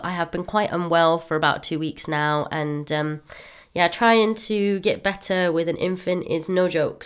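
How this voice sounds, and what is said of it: Voice sounds unwell. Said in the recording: “you can probably hear in my voice, I'm still not quite right”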